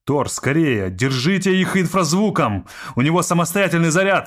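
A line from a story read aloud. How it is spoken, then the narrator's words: Shouting. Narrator (Russian): закричал он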